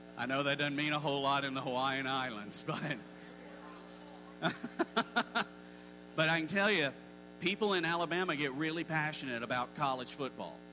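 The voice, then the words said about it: Alabama accent. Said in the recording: “you're not going to be totally shocked by this because of my accent. I grew up in the state of Alabama.”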